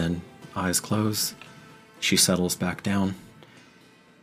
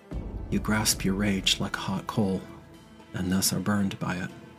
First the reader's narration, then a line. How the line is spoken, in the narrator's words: you hear her say very softly, you can barely make this out